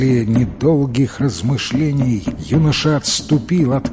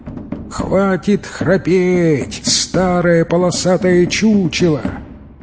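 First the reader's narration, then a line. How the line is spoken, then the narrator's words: Angry growl. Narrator (Russian): Тигр гневно зарычал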